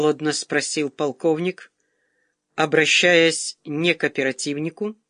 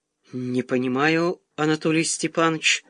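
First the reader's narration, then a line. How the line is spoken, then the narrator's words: Muttered. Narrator (Russian): пробормотал тот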